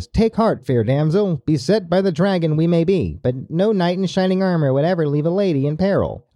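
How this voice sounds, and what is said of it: Put-on transatlantic accent. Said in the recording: “I see you pulled out your transatlantic accent for that one.”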